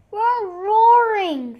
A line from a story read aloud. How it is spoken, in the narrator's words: they shouted